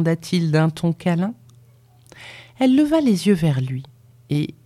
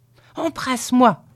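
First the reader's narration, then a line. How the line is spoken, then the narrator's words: Shouted. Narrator (French): cria-t-elle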